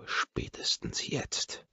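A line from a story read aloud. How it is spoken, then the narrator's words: Hissing to her. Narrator (German): zische ich ihr zu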